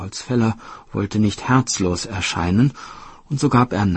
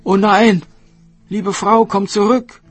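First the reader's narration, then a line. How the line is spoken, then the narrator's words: Woodcutter calling out. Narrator (German): rief der Holzfäller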